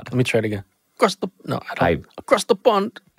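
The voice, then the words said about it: Attempted British accent. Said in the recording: “I'm just trying to do a British accent.”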